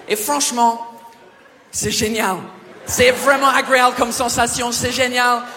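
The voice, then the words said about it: Exaggerated put-on accent. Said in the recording (French): “je vais arrêter de vous parler avec cet accent de merde parce que c'est hyper difficile à maintenir pendant 7 minutes”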